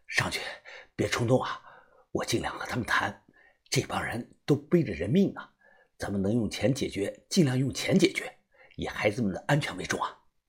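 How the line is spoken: Quiet. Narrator (Chinese): 我小声的说

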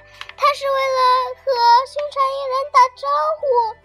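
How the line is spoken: Shouting. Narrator (Chinese): 老师的声音好像是喊出来的

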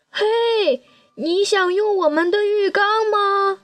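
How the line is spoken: Loud shout downward. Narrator (Chinese): 马努冲着下水道下面大喊

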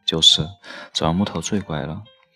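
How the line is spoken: Smiling mother. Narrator (Chinese): 妈妈笑眯眯地说

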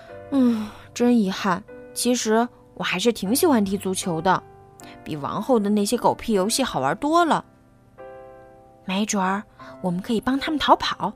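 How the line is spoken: Wistful sigh. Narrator (Chinese): 胖猪感叹道

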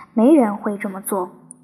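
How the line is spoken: Hurried addition. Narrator (Chinese): 他急忙补了一句

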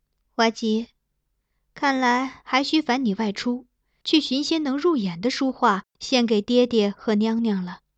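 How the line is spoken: Mild, casual. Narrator (Chinese): 他淡淡笑笑

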